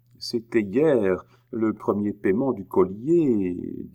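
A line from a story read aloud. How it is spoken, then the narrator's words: Timid. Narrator (French): dit Bemer timidement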